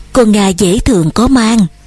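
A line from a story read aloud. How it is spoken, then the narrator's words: Sighing whisper. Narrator (Vietnamese): bà thở dài nói thầm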